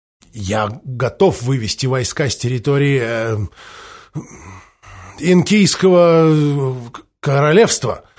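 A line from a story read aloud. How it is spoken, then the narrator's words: Reluctant forced words. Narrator (Russian): выдавил из себя Махоуни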